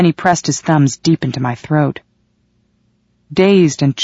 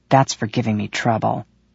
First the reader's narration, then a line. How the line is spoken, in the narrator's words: he muttered